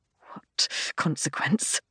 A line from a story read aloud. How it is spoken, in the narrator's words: I hiss